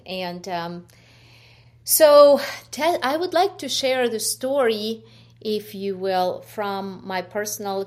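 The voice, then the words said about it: Ukrainian accent. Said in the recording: “there's a bit of an accent there ... I was born in Ukraine. You could hear from my accent”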